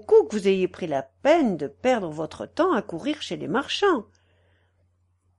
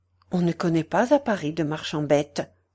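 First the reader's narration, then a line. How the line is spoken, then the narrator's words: Almost curt retort. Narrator (French): répliqua Ponce presque sèchement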